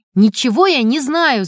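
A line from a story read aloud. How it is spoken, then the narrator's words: Desperate shout. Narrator (Russian): закричал с отчаянием Сережка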